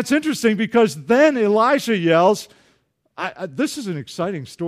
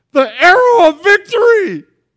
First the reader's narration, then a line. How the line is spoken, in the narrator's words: Elisha yells out